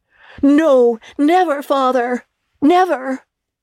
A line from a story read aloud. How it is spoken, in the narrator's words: all cried again